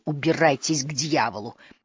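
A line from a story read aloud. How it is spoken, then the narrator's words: Strangled hiss. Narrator (Russian): Риф сдавленно прошипел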